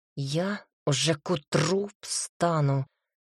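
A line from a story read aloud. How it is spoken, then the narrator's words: Through gritted teeth. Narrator (Russian): сквозь зубы сказал Ракаэль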